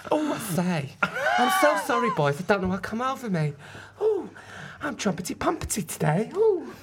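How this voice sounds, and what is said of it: Inconsistent cockney character voice. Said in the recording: “he's got a bit of a cockney accent ... your accent is all over the shop”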